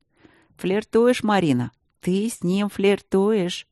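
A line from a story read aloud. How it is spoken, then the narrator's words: Snide inner voice. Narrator (Russian): ехидно разъяснил внутренний голос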